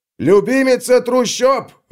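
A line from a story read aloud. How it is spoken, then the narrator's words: Someone shouting. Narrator (Russian): выкрикнул кто-то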